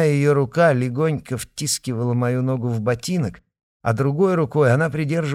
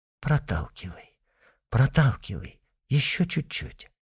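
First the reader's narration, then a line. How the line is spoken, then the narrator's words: Gentle patient coaxing, mother. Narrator (Russian): мамин голос нежно и терпеливо уговаривает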